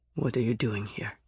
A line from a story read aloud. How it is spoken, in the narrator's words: asked in a deadly voice